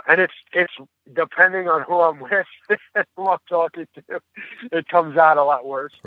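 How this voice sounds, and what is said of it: Brooklyn, Long Island accent. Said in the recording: “the accent I hear is Brooklyn, Long Island.”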